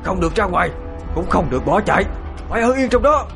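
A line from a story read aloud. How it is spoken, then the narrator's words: Shouted. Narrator (Vietnamese): thầy đã quát lên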